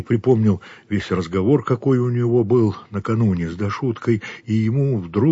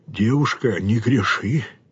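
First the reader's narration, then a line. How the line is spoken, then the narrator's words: Moaning, like a sick man. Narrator (Russian): сказал он стонущим голосом, как больной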